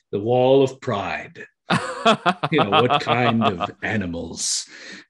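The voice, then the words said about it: Deep resonant impression of principal. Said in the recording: “his deep voice is very resonant ... that's a very good, very good impersonation of him”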